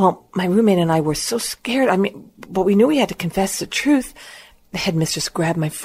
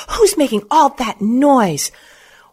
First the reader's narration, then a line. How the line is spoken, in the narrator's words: the headmistress screamed